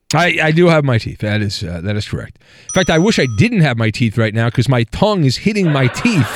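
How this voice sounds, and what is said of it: Lisping voice like Lou Holtz. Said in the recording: “I sound like Lou Holtz used to sound when he was coaching Notre Dame, that I have a lisp because of my tongue... my Lou Holtz impersonation”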